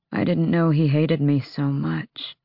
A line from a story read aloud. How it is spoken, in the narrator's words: Fenris rasped